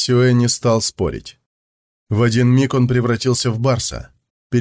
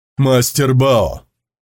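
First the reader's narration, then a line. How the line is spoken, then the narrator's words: Shout while running. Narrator (Russian): крикнул он на бегу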